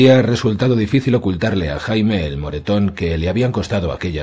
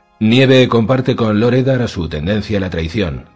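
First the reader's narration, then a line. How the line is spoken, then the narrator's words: Plain. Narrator (Spanish): dijo Cersei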